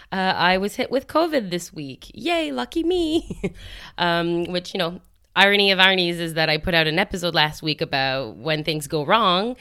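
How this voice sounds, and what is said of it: Congested voice. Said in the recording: “my voice is a little congested”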